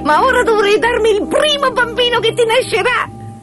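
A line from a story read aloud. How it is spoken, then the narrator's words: Dwarf shouting with nasty laugh. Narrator (Italian): gridò il nano con una risataccia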